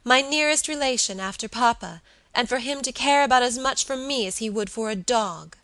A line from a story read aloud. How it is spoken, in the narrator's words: she cried passionately